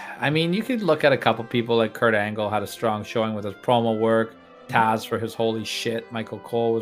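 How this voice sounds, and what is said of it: Usual voice. Nothing is said of it.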